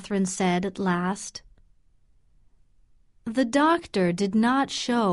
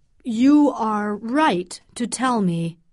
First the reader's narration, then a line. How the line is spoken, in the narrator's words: he said